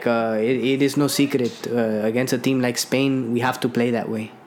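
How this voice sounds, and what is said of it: Put-on European manager accent. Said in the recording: “Why does he have that accent, though? ... That's just my typical European manager accent.”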